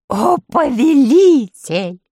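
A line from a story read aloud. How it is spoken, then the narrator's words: Joyful exclamation. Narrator (Russian): радостно вскричала медвежья шкура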